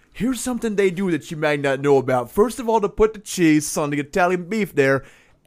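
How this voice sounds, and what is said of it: Put-on Chicago accent. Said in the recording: “Accent gang. I spent plenty of time in Chicago to know the environment.”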